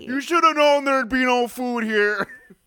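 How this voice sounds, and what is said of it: Imitates another person's voice. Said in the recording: “That's actually a really good impression of.”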